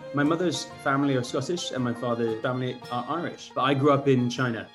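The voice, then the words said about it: English accent. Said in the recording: “You do not have a typical Scottish accent. ... which is why I sound very English.”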